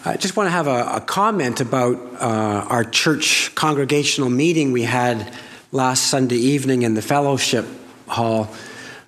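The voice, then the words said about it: Troubled, strained voice. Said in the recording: “my voice has given me a little bit of trouble today”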